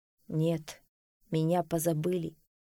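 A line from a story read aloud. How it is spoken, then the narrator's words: Dejected reply. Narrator (Russian): уныло ответил Аргус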